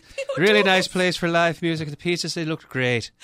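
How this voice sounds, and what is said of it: Put-on Irish accent. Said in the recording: “I want you to do this on an Irish accent from now on. ... Very good, yeah.”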